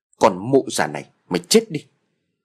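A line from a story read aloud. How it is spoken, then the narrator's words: Loud shout. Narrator (Vietnamese): gã quát lớn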